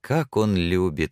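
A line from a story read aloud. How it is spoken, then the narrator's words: Proud laughter. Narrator (Russian): засмеялась она, и в голосе ее слышалась гордость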